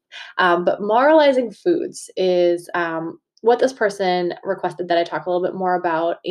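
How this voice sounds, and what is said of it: Massachusetts accent. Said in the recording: “I've been told that word moralizing is where my accent comes out ... having a Massachusetts accent”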